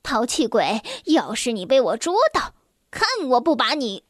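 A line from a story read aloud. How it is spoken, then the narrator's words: Menacing smiling voice. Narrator (Chinese): 米尔多什妈妈她带着让阿美丽起鸡皮疙瘩的吓人的微笑说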